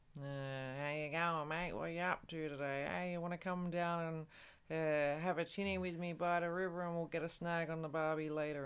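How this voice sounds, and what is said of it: Broad Australian accent. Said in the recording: “one, the broad accent ... that's the broad accent. ... Broad indeed, mate.”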